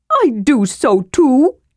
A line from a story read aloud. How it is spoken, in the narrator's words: Tass said indignantly